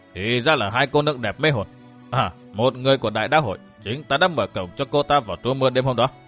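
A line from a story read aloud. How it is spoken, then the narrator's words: Muttering. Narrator (Vietnamese): Vị võ sư nọ lẩm bẩm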